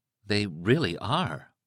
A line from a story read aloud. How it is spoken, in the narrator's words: Liz said in a soft, awed voice